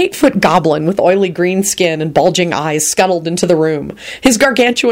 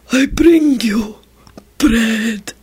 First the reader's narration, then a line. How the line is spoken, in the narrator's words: he stated unnecessarily in a breathily lustful tone